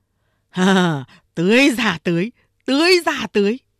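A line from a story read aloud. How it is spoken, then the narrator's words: Excited shouting. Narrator (Vietnamese): Đại Hồ ló đầu ra, phấn khởi la lớn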